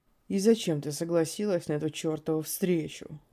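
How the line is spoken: Raised voice, calm. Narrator (Russian): Блондин повышал голос, но вел себя крайне спокойно

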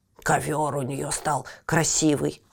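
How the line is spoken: Grumbling. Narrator (Russian): ворчал

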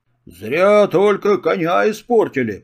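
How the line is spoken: Grumbled. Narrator (Russian): проворчал Дудкин

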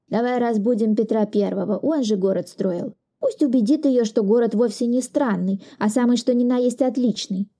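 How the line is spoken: Plain. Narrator (Russian): сказал Чкалов

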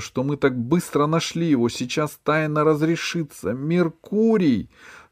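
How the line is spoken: Shouting again. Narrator (Russian): закричала она снова

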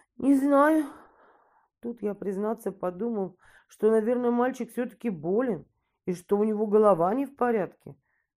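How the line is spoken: Boy, sighing after pause. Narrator (Russian): Мальчик помолчал, вздохнул и сказал

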